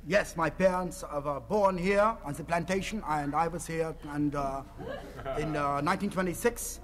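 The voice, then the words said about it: Put-on Spanish accent. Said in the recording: “Is that a Spanish accent you're affecting, sir?”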